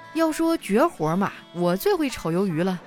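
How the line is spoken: Thoughtful laugh. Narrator (Chinese): 应聘者思索了一下，笑道

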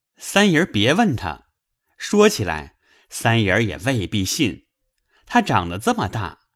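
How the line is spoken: Laughing. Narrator (Chinese): 星儿笑道

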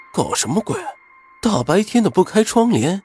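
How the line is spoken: Muttering. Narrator (Chinese): 云峰嘀咕道

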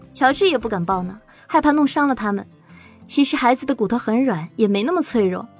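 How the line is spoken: Laughing. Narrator (Chinese): 陶如雪笑着说

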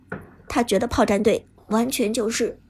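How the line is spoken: Deep low voice. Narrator (Chinese): 抓根的鬼谷子沉声说道

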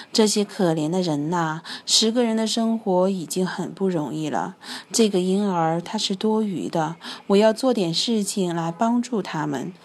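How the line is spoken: Inner sighing thought. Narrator (Chinese): 猫头鹰在心里感叹着

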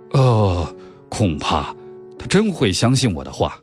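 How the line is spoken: Said with a sigh. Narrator (Chinese): 赫尔克里·波洛叹口气，他说

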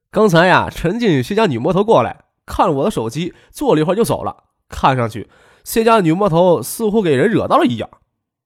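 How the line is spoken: Laughing. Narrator (Chinese): 他笑着说

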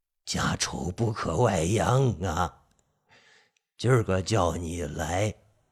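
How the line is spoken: Old man's long sigh. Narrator (Chinese): 老头子一声长叹

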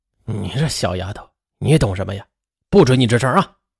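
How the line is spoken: Stern harsh scolding. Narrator (Chinese): 张才伟则绷着脸对妹妹是厉声的呵斥道

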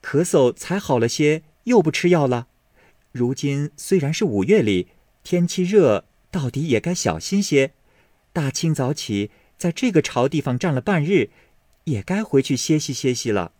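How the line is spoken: Laughing. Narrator (Chinese): 紫娟笑道

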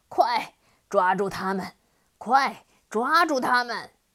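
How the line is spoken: Angry stamping yell. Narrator (Chinese): 黑蜂王愤怒地跺着脚大叫

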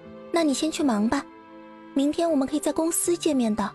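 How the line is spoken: Quiet voice. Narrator (Chinese): 苏姿玉小声的说道

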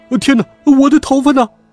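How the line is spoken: Panicked wailing cry. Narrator (Chinese): 地上的人们发现自己的头发不见了，哇哇大叫道

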